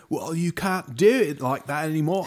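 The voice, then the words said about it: Put-on English accent. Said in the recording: “I know I can't do the English accent, but ... that was a pretty good one though.”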